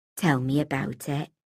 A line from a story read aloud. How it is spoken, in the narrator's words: she said softly